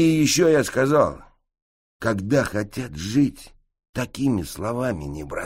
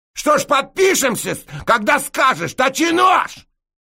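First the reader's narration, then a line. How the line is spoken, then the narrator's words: Barked reply. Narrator (Russian): рявкнул я в ответ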